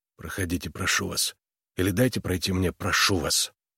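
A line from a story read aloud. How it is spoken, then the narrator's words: Hoarse whisper. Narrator (Russian): Хриплым шепотом Харлан произнес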